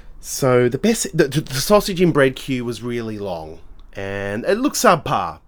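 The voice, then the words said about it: Chesty, congested voice. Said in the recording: “I have to cough. Hang on a tick. Still very chesty, as you can probably hear in my voice.”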